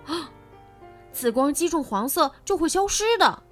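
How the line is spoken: Shouting. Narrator (Chinese): 凯莎喊道

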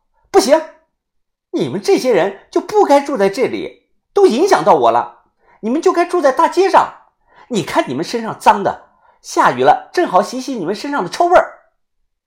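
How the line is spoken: Shrill stamping outburst. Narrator (Chinese): 那女的立即跺脚，尖声的又说道

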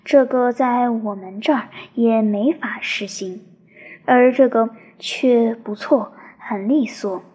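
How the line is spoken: Terse frowning remark. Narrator (Chinese): 霍里则沉默着，蹙着粗黑的眉头，仅偶尔评论道

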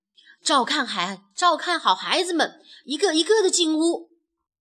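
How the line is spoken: Shouting. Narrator (Chinese): 卡梅拉大喊道

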